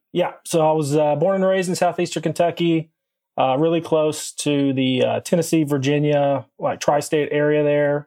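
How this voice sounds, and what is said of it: Slight Southern US accent. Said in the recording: “hear your accent and hear a little bit of a little South in there”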